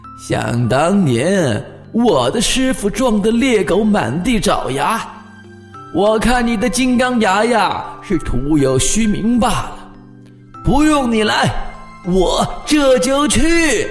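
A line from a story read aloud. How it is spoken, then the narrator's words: Laughing. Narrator (Chinese): 他笑道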